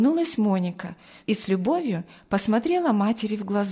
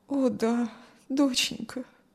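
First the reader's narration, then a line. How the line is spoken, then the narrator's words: Sad mother answering. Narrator (Russian): грустно ответила мать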